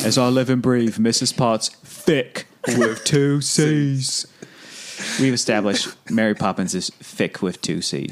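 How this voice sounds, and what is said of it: Put-on Cockney accent. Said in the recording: “we like saying that with a Cockney accent”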